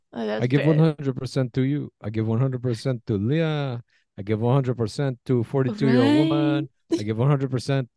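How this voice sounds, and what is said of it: Poor put-on French accent. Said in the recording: “My best French accent. It's terrible, but.”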